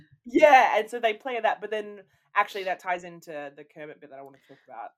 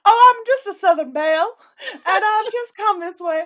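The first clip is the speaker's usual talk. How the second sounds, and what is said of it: Put-on Southern Belle accent. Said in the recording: “Her accent is hilarious. ... It's so bad. ... I think it's pretty similar to mine. ... yours is already better just from that one phrase.”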